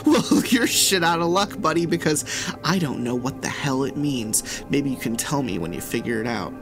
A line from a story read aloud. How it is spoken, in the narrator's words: laughed, I actually laughed, and said